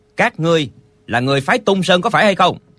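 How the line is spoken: Shouted. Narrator (Vietnamese): Lệnh Hồ Xung dừng bước, quay người lại, chàng quát lên

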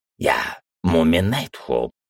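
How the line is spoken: Repeating. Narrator (Russian): повторил инвариант

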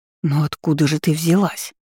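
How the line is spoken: Breathless whispered question. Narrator (Russian): Сделав пару глубоких вздохов, шепотом спросила я

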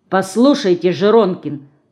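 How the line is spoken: Stern. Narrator (Russian): строго сказала Динка

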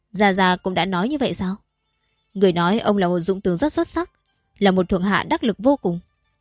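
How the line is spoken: Smiling. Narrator (Vietnamese): mỉm cười nói

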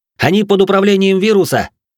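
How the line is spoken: Shouting. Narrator (Russian): Прокричал я

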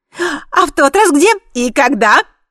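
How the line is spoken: Overlapping shouting voices. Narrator (Russian): закричали они наперебой

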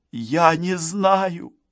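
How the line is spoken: Sobbing. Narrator (Russian): всхлипнула Гарриет

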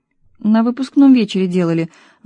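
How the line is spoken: Sighing. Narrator (Russian): вздохнула Света

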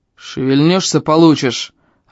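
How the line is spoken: Barked threat. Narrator (Russian): рявкнул Эльм

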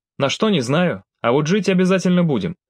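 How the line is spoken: Cheerful. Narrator (Russian): весело произнес Алексей

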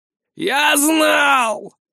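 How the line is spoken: Triumphant wheeze. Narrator (Russian): Торжествующе просипел

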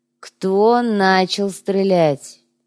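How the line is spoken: Policeman's dull-voiced question. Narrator (Russian): тусклым голосом поинтересовался полицейский

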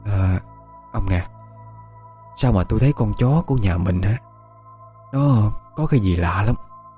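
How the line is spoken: Whispering. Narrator (Vietnamese): thì thào

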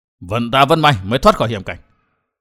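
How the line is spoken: Relieved old man muttering. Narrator (Vietnamese): hít một hơi dài lãnh khí, lẩm bẩm

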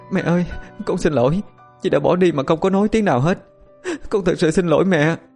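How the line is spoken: Sobbing. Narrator (Vietnamese): Hạnh khóc nức nở nói

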